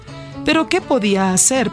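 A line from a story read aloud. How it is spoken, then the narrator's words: Sad question. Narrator (Spanish): preguntó tristemente el segundo hijo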